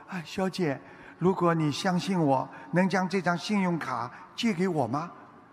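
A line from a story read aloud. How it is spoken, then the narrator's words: Quiet voice. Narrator (Chinese): 瓦伦丁小声地说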